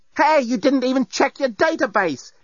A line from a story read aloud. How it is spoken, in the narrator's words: exclaimed Lucy indignantly